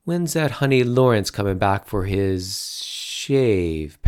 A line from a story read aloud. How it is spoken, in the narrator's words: Patty asked, slurring it into a dirty word